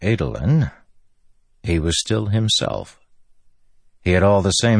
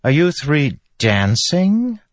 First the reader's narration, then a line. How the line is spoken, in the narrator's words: a voice suddenly piped up